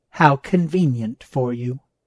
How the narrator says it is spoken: the boss said, inflecting her voice into a scolding tone

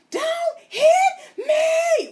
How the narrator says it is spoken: he starts screaming

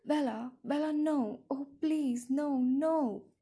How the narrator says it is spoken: sobbing, tearless, broken sobs

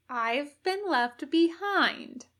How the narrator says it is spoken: Ed said slowly

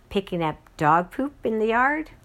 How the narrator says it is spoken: Selma giggled

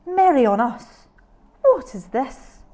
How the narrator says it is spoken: cried the woodsman

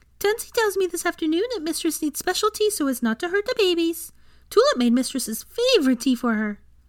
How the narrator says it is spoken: Tulip exclaimed brightly

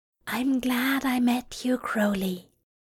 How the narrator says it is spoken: his companion whispers

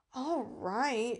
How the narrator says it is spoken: she sighed

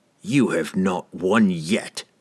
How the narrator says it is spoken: he spat defiantly

